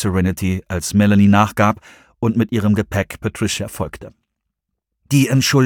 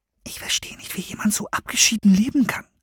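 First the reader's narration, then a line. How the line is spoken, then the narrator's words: Whisper. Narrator (German): flüsterte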